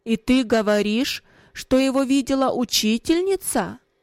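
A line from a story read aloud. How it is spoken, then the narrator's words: Stern raised voice. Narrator (Russian): Отец же повысив голос, спросил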